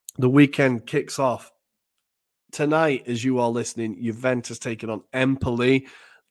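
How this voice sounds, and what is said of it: Strained, worn-out voice. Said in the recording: “My voice is running out here. I really hope it feels okay. Sounds okay.”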